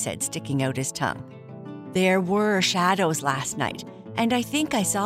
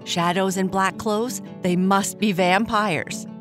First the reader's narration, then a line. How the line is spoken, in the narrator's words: his sister said, laughing